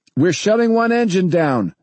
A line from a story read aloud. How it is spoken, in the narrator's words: Danny shouted